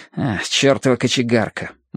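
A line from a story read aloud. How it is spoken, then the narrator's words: Grumbling mutter. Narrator (Russian): буркнул Терренс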